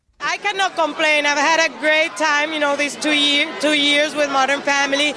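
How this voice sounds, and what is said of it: Strong Latina accent. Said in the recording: “my crazy accent ... as a Latina”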